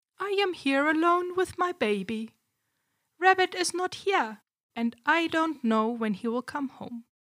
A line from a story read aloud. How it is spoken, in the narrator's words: Rabbit's wife told him calmly